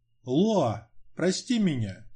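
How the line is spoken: Quiet whisper. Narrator (Russian): тихо шептал Альбин

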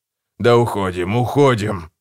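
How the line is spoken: Grumbling. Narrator (Russian): проворчал Гегель

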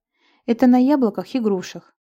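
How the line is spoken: Sighing. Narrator (Russian): вздохнула Лира

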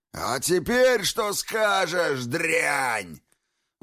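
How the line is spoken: Roar. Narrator (Russian): взревел

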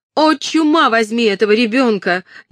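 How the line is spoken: Frantic scream. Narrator (Russian): неистово закричала Кэтрин

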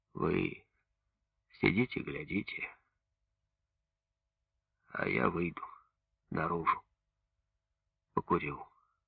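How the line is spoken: Hoarse. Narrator (Russian): если кино было про войну, говорил сипло

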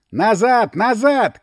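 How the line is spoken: Several voices shouting. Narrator (Russian): кричали уже несколько голосов

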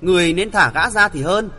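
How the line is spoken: Cold and soft. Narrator (Vietnamese): Hữu Tâm Nhơn vẫn lạnh lùng muôn thuở, nàng hiu hiu nói

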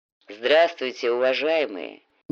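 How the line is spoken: Deep bass voice. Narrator (Russian): неожиданно густым басом произнес всадник

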